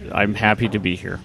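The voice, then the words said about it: Low, slow, unenthusiastic delivery. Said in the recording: “doing a very good impression of somebody who's not happy to be here ... keep it low and slow”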